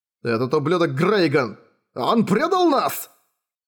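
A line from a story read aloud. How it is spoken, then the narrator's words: Shouting. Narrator (Russian): Дункан прокричал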